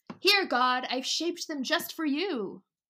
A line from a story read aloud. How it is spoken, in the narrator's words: The thief cried